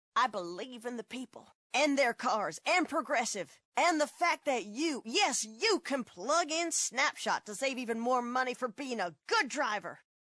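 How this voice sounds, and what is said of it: Impression of a politician. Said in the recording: “my impression of a politician”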